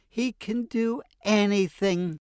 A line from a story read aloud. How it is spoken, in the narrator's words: exclaimed his mother